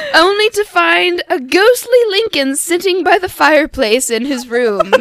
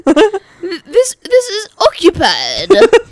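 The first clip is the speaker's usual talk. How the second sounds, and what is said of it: Imitates another person's voice. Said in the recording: “my best Churchill impression”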